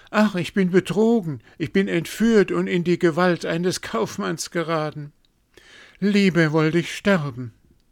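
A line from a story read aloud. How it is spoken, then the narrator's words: Frightened cry. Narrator (German): rief erschrocken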